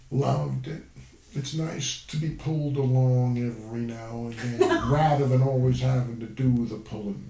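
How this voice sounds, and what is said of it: Good impression of Jack. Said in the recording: “That's a good impression.”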